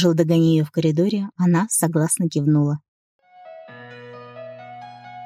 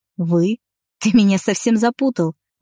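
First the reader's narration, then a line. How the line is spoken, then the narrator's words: Laughing. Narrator (Russian): Рассмеялась она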